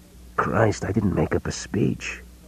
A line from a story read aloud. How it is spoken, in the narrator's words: Gordon whispered